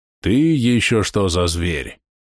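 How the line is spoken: Growling voice. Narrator (Russian): раздался рычащий голос

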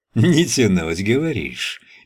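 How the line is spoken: Stopped giggling. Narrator (Russian): перестал хихикать косматый

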